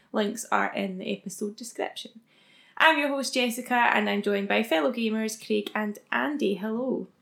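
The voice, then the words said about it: Scottish accent. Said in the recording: “can't tell by our accents, we are, of course, from the beautiful Scotland”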